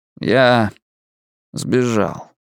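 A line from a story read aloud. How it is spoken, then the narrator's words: Cold, lifeless. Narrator (Russian): сказал Биллингс все тем же холодным безжизненным тоном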